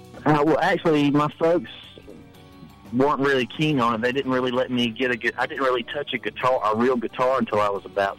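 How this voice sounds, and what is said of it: Thick Southern American accent. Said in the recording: “I do have a very thick southern accent. That's real.”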